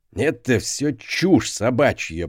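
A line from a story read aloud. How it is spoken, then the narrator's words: Old man growling. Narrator (Russian): прорычал старик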